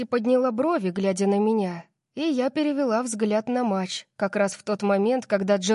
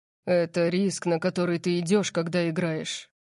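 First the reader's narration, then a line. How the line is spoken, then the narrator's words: Gloomy. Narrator (Russian): мрачно сказал Орион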